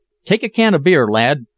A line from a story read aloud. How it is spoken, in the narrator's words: cried